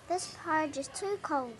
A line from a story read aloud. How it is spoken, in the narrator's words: she said